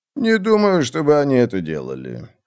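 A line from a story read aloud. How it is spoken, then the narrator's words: Thoughtful. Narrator (Russian): сказал Альберт, задумчиво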